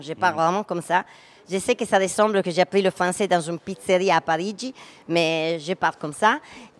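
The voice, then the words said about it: Strong Italian accent in French. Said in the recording (French): “notre accent que j'ai fait exprès, mais je ne fais pas exprès, c'est pour dire que tout le monde pense que j'ai fait exprès mon accent.”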